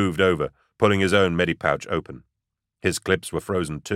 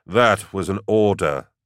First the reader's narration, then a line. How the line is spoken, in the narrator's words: Gaunt sighed